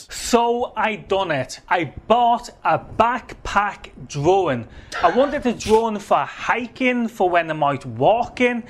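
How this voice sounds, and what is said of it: Distinctive regional accent. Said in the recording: “Accent of the Day ... see if you can spot the language here ... the bewitching tone of this man's voice”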